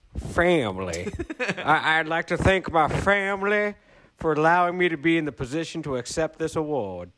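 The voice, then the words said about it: Exaggerated Southern US accent. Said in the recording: “a pretty aggressive accent ... that sounded very plantation-y ... It was a little bit much ... Little on-the-nose Colonel Sanders”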